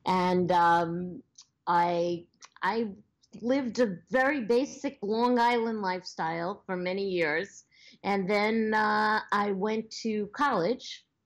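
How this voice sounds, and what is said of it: Long Island New York accent. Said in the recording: “I am a transplanted New Yorker ... I was born on Long Island, which I know you can probably hear in my accent.”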